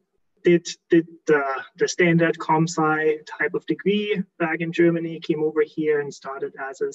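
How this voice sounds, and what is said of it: German accent. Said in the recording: “born and raised in Germany, like in case someone picks up the accent”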